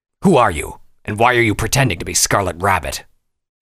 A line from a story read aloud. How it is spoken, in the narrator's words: He growled